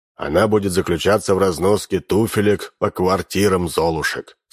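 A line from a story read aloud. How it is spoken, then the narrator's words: Plain. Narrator (Russian): сказал Минц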